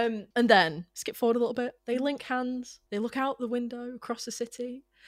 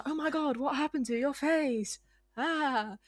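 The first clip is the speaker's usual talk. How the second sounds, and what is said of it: Helena Bonham Carter impression. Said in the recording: “That was a very good impression, I think... It was like she was here.”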